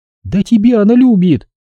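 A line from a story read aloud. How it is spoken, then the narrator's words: Crying out, sobbing. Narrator (Russian): вскрикнула Люба и всхлипнула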